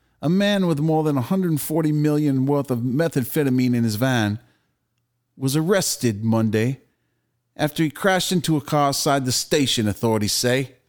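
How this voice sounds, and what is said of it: Put-on Australian accent. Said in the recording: “Can you read the story in Australian accent? ... Australian accent,”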